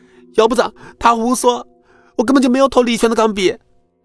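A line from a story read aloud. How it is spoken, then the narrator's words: Loud protesting shout. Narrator (Chinese): 听着管超的话，名字大声喊道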